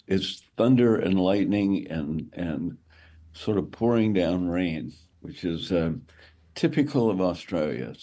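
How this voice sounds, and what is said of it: Slightly hoarse voice. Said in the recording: “You sound a little hoarse,... Do you got a cold going?”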